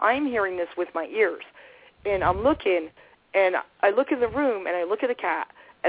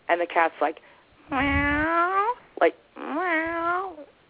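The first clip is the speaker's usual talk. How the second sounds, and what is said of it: Drawn-out cat meow imitation. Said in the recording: “I'm doing a good imitation of a cat, but it's, like, drawn out”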